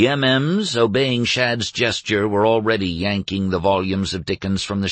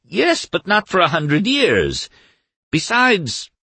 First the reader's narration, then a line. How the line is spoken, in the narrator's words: Doremus cried